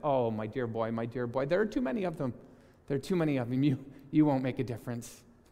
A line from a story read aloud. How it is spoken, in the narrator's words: his grandfather let out a chuckle, and he said